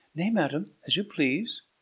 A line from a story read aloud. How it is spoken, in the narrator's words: cried Bianca